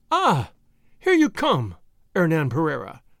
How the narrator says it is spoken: she cried

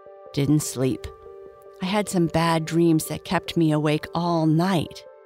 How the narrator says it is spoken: replied Red

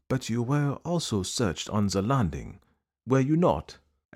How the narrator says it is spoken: asked Poirot gently

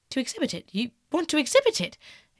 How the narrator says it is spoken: exclaimed Dorian Gray, a strange sense of terror creeping over him

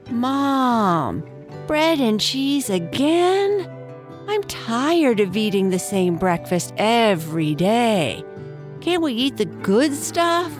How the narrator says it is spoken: whined Nibbles

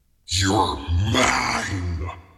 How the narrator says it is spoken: he snarled

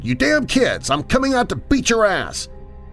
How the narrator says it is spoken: Then I finally had enough and yelled

